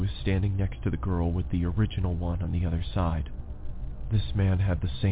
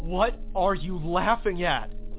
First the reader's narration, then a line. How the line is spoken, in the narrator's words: I yelled into the screen